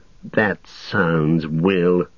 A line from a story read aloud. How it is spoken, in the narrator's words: sneered Saruman